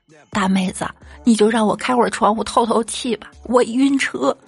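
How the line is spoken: Pleading. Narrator (Chinese): 我朋友就哀求道

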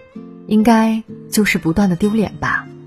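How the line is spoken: Sighing. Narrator (Chinese): 他感叹道

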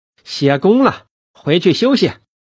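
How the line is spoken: Loud call. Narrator (Chinese): 春芳……大声叫道

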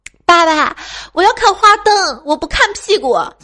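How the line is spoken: Upset child shouting. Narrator (Chinese): 女儿突然特别不高兴的大声叫道

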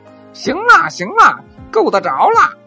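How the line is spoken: Shouting from a well. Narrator (Chinese): 小猴子……在井里喊

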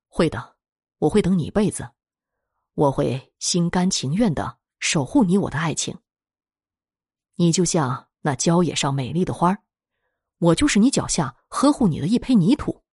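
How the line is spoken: Tender, gentle. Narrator (Chinese): 阿西……温柔的说

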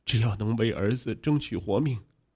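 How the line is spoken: Weeping bitterly. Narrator (Chinese): 陆家辉痛哭流涕的说

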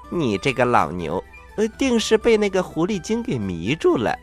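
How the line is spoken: Tipsy, laughing. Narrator (Chinese): 铁扇公主有点喝多了，她笑着说

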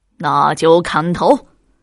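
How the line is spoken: Sneering chuckle. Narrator (Chinese): 刘恶霸嘿嘿冷笑几声

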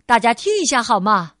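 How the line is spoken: Sudden loud call. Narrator (Chinese): 爸爸突然大声叫道

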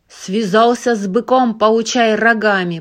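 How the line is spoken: Roared. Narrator (Russian): проревел он

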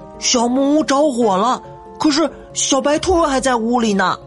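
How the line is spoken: Panicked shout. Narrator (Chinese): 不由得惊慌大叫

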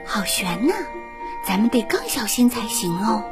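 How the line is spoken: Quiet voice. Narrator (Chinese): 艾莎小声对安娜说

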